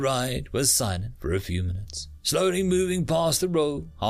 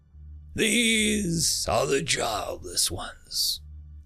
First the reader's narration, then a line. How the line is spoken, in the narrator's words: said, his voice somber